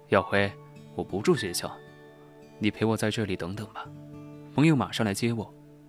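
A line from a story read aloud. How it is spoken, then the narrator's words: Hesitant, faintly smiling. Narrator (Chinese): 他犹豫了一下，淡淡笑了起来，说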